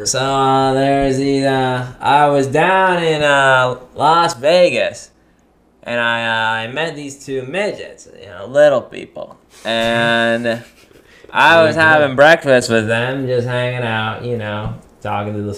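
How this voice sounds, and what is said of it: Norm Macdonald impression. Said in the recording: “I can do a really good Norm Macdonald impression.”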